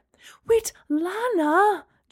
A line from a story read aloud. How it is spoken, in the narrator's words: Gemma cried